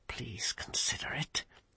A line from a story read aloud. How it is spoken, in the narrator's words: he hissed urgently